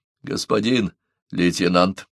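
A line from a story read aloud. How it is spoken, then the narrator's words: Mumbled. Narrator (Russian): промямлил Джонсон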